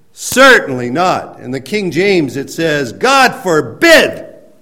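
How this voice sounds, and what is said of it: Yelling loudly. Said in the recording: “I'm yelling because that's the import of the words that are used there. He's yelling it out.”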